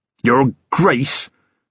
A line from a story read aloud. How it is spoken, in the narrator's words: sneered Jethro